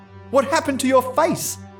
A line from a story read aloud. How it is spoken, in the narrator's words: I cried